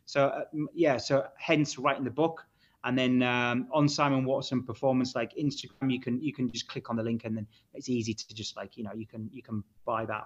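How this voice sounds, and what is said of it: Yorkshire accent. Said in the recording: “which will be interesting with my accent... Where are you from, mate, originally?... Hull... Yorkshire.”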